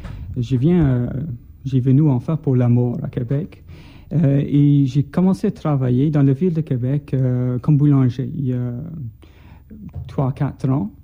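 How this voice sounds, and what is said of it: Scottish accent speaking French. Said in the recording (French): “comme vous pouvez entendre de mon accent ... Je ne suis pas québécois d'origine. Je viens d'Écosse.”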